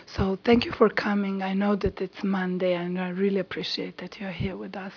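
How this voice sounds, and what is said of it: Hoarse, broken voice. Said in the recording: “my voice is broken”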